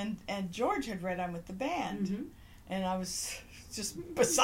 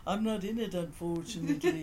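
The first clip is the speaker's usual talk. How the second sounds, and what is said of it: Good impression of George. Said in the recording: “That's a good impression.”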